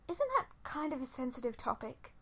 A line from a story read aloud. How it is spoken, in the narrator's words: Fi said in a slightly strangled tone